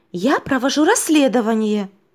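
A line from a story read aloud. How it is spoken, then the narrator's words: Slightly offended girl. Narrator (Russian): немного обиженно ответила девочка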